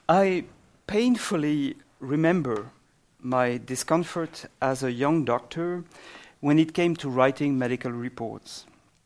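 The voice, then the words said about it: Exotic non-native accent. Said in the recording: “my exotic accent”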